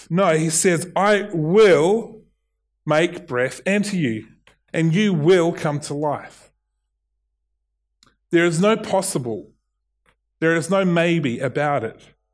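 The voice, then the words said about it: New Zealand / Australian accent. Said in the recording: “in my Kiwi accent ... Sometimes I say it Australian, sometimes I say it Kiwi ... it suddenly spits out South African”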